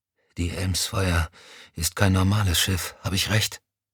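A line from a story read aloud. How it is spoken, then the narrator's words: Exhausted whisper. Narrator (German): Erschöpft flüsterte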